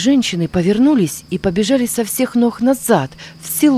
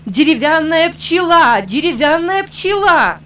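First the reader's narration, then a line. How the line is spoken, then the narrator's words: Crowd shouting. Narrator (Russian): кричали они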